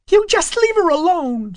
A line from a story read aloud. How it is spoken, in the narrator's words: screamed Fern